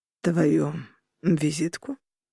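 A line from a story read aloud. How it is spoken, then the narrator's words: Calm quiet question. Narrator (Russian): переспросил Роган совершенно спокойным и тихим голосом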